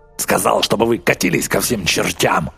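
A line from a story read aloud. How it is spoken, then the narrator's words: Barked. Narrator (Russian): рявкнул Рич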